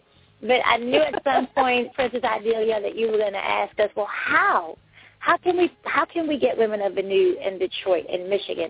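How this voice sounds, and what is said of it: Northeastern US accent, slightly New York. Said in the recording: “I have a northeast accent, so you have to bear with me. Sometimes it sounds a little southern. Sometimes it sounds a little New Yorkish.”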